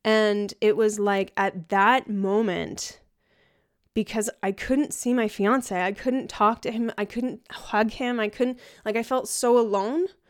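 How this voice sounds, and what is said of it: Emotional, shaky voice. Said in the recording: “I'm getting emotional talking about this.”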